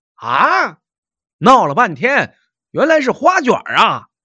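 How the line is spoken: Startled cry. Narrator (Chinese): 却惊叫道

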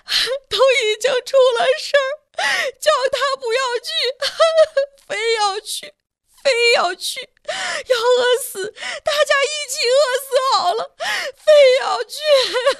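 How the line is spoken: Crying. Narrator (Chinese): 慧芳继续哭着说

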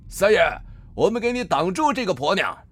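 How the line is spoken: Group shouting together. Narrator (Chinese): 七八个土匪 齐声大喊

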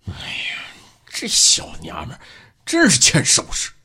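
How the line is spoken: Through gritted teeth. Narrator (Chinese): 孟勇敢咬牙切齿地对徐小斌说

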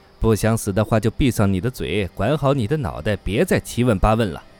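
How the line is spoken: Cold. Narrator (Chinese): 姓吕的老师冷冷地

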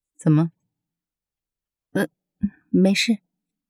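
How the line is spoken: Casual question. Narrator (Chinese): 淡淡地挑起眉毛问

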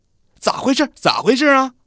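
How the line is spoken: Shout. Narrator (Chinese): 喊

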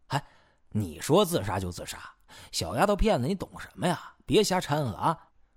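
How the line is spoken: Mocking. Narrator (Chinese): 应喜回忆讥笑

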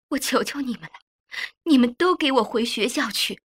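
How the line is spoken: Crying. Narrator (Chinese): 妈妈却一下子从炕上下来，哭着说

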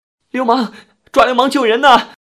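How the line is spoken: Sudden woman's scream. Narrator (Chinese): 床上的女人突然尖叫一声

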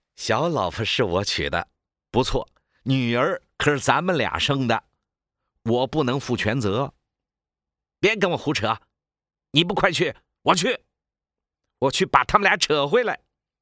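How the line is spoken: Smiling. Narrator (Chinese): 小何微笑着说

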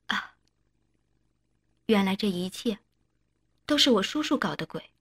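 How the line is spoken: Soft, sighing. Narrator (Chinese): 一美轻声叹了口气

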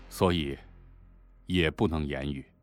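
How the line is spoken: Flat, indifferent. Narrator (Chinese): 卞才淡淡道

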